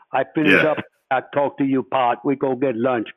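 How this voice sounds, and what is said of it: Imitates a real thick accent. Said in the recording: “he had a real, real thick accent.”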